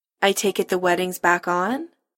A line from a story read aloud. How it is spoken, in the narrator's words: Kim says dryly